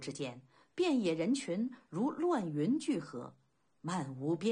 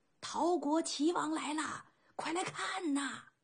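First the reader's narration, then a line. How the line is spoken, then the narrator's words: Hoarse crowd shouting. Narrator (Chinese): 一声声嘶哑的呐喊此起彼伏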